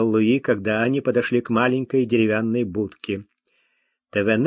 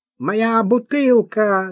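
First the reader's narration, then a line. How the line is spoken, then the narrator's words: Shouting. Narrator (Russian): закричал Тавянян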